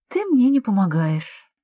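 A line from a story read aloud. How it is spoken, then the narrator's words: Sighing. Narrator (Russian): вздохнула она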